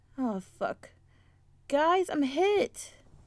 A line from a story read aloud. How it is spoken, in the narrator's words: cried